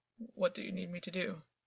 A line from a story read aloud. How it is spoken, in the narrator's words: he said, his voice shakier than he would have liked